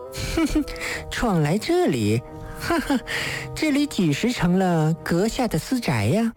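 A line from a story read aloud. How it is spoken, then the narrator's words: Wanton woman laughing. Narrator (Chinese): 女子浪虐笑道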